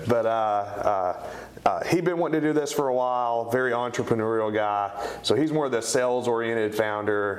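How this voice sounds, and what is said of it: East Tennessee accent. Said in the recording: “my East Tennessee accent”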